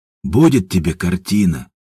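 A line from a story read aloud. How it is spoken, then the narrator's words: Sighing. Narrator (Russian): вздохнул Степан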